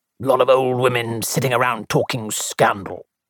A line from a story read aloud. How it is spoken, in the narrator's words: grunted Colonel Bantry